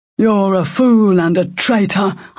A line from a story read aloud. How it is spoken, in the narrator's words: Arika Yorichi snarled